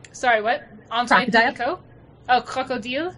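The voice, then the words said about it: Put-on French accent. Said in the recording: “How do you say that with French accent? ... See? That.”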